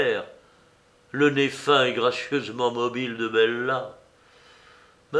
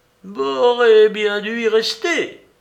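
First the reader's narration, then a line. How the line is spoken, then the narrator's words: Child's clumsy exclamation. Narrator (French): s'écria maladroitement le petit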